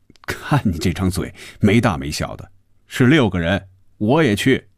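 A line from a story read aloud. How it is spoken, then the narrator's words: Laughing. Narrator (Chinese): 红军笑着说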